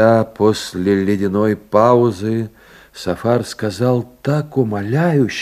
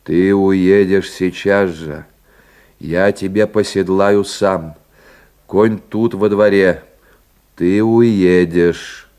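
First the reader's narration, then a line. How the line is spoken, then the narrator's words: Stubborn, dull heavy voice. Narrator (Russian): Терентьев упрямо повторил скучным тяжелым голосом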